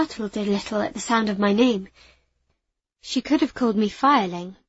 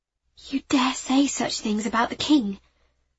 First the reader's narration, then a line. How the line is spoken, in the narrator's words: I asked, barely above a whisper